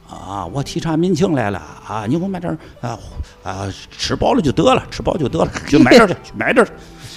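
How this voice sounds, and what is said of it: Imitating Yuan Shikai's accent. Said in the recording (Chinese): “这口音真像。”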